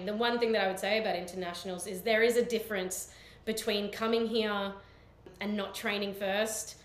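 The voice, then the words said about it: Australian accent. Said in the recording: “I have a natural Australian accent”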